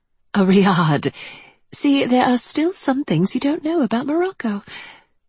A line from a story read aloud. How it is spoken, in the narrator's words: she said, her tone light and teasing